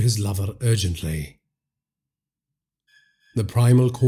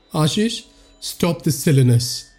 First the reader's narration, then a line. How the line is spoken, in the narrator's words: he said in a wavering voice